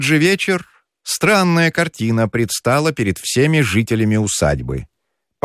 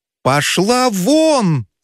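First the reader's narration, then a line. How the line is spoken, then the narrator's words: Shout. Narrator (Russian): закричал Федяшев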